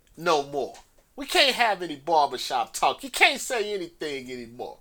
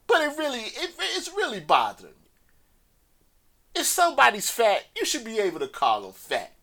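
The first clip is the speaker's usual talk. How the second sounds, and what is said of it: Raised, loud voice. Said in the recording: “raised my voice”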